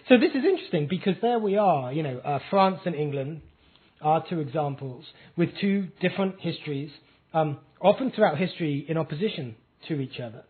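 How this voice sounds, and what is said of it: English accent. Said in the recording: “if you said all of that with my accent, you would sound just like the normal UKIP voting English guy down the pub”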